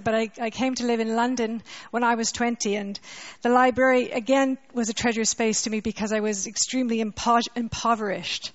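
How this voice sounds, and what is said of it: Canadian accent. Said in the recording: “I'm a Canadian, you can hear my accent”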